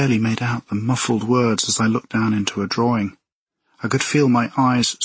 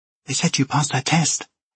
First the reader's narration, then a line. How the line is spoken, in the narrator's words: Casey whispered